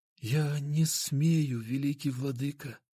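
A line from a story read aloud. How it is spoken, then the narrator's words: Barely audible reply. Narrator (Russian): еле слышно ответил он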